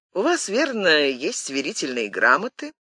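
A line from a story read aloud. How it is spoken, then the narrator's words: Dry, annoyed question. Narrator (Russian): спросил Мазарини сухо и с досадой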